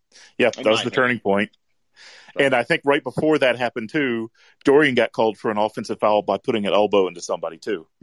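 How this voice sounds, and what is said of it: Booming radio-style voice. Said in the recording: “a hell of a radio voice. Really good, like, booming sense.”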